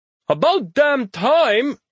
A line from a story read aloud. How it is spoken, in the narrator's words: Ali shouts as he floats